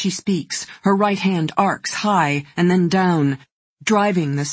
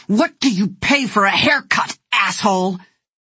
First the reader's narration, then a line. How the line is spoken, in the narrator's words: With a sudden fury, she snarls